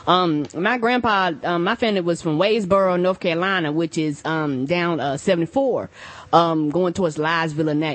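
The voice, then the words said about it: Country Southern American accent. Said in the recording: “You sound so country”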